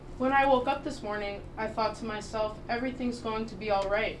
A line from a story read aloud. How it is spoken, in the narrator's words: she says flatly